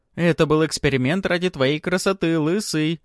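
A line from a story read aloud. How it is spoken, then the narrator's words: Laughing reply. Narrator (Russian): Продолжая хохотать, отвечает ему некромант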